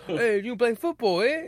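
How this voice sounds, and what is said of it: Imitates another person's accented voice. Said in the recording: “Carl Urban can actually hide his accent”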